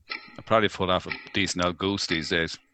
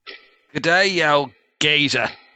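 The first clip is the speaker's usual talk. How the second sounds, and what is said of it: Put-on Australian accent. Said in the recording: “Say something in an Australian accent. ... it certainly sounded Australian.”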